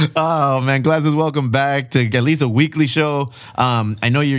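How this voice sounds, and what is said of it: Usual voice. Nothing is said of it.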